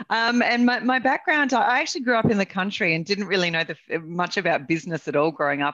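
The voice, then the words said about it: Australian accent. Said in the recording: “born and raised here in Australia, as you can all probably tell by the accent”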